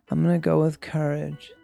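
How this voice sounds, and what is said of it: Calm imitation of another person's voice. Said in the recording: “I love how calm ... is ... That's my impression of”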